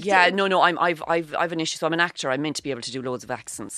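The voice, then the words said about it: Irish Cork accent. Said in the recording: “you have a lovely, gorgeous Cork accent”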